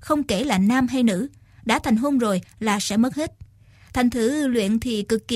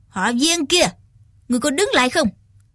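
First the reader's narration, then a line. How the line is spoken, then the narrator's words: Shout. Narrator (Vietnamese): Trác Thiên Hùng quát lên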